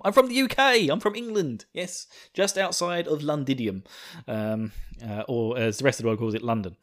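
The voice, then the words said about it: Slight Essex English accent. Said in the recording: “my slight twang to my voice because I am from the wonderful county of Essex”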